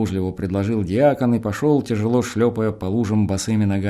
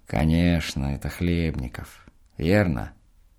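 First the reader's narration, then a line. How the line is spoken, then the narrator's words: Quiet speech. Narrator (Russian): диакон тихонько сказал мне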